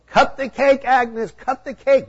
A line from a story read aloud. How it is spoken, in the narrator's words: Everyone cheered and yelled